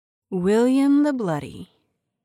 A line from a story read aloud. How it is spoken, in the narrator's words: purred, her voice intimate and seductive